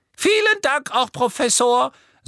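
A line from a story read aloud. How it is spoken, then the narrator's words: Soft squeaky voice. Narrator (German): sagte Professor Flitwick mit seiner leisen Quiekstimme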